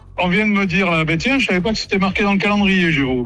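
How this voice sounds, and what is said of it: Slight regional French accent. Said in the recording (French): “Vous avez un peu d'accent, non ? Vous avez un petit accent ? ... je suis du Cantal”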